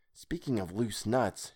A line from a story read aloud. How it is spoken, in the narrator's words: whispered